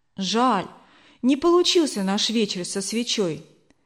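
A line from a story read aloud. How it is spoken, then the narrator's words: Sighing ten-year-old boy. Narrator (Russian): вздохнул Лёва, десятилетний брат Эльвиры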